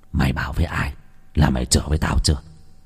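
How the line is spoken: Whispering. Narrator (Vietnamese): thì thầm vào tai

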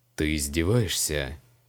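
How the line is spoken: Quiet question. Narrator (Russian): Тихо спросил маг

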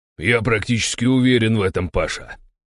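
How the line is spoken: Malicious smiling tone. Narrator (Russian): злобно улыбнулся Завойский-старший

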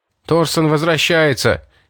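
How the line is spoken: Shout. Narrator (Russian): крикнул Дэйн

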